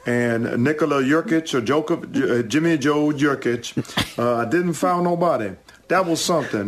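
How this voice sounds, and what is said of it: Imitates another person's voice. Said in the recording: “that impression ... I'm just floored at how good that was. That's almost our guy Harry good.”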